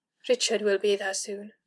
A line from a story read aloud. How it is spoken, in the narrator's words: offered quietly